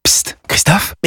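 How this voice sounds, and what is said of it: Whispering. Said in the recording (French): “pourquoi chuchotez-vous”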